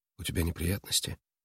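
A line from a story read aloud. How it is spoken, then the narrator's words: Quiet gentle question. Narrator (Russian): тихо спросила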